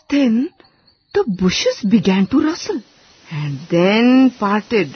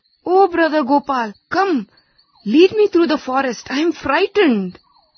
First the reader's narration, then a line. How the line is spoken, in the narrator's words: called out